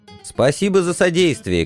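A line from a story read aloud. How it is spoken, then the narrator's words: Shout. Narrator (Russian): крикнул я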